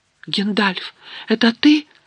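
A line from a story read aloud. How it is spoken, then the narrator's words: Exclaimed. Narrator (Russian): воскликнул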